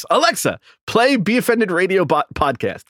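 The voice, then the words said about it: Special voice for talking to Alexa. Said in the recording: “You have to do Alexa. It in a different way. I have to do my voice.”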